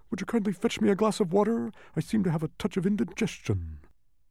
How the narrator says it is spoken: with a most distressed look on his face, he gasped

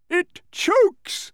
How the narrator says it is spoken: shouted again jumping for joy

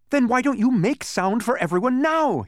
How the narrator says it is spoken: he shouted, so eagerly

